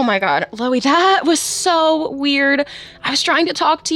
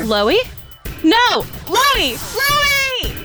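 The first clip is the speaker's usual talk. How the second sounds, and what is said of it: Screaming a name. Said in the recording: “why are you screaming my name?”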